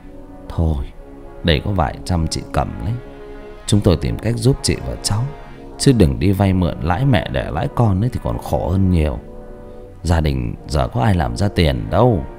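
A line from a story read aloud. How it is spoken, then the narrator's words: Sighing. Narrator (Vietnamese): thở dài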